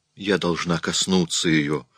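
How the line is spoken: Woman's hoarse reply. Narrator (Russian): хрипло ответила женщина

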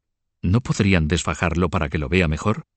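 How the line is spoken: Plain question. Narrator (Spanish): preguntó

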